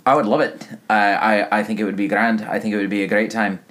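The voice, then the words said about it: Slipping into a Scottish accent. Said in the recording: “I'm starting to waffle into Scottish there... Scottish a little, yeah”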